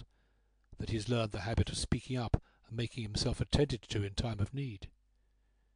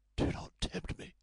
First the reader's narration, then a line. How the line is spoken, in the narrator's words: she said hoarsely